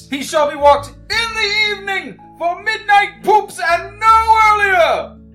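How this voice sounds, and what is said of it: Shouting. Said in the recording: “stop shouting”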